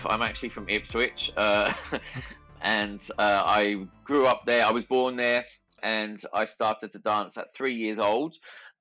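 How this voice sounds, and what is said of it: Australian accent. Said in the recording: “the Australian accent that I have”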